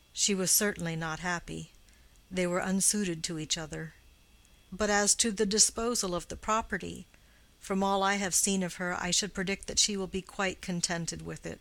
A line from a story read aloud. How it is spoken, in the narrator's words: He answered gravely